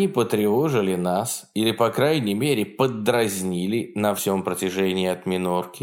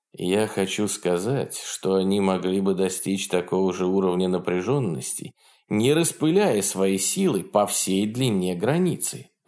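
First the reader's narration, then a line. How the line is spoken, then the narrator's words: Calm. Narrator (Russian): ответил Белая Гавань по-прежнему спокойным тоном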